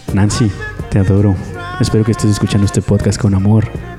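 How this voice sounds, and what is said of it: Deliberately deep voice. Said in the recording (Spanish): “voz grave, por favor”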